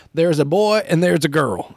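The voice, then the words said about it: Put-on Southern accent. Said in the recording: “I don't know why I went for the Southern accent there”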